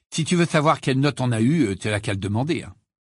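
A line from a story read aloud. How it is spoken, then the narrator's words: Curt, dry tone. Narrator (French): dit sèchement Ron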